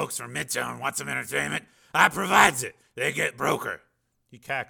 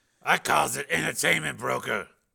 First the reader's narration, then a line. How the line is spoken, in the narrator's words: Slim said hoarsely